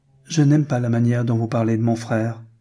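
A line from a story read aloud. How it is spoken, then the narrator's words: Plain. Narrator (French): dit-elle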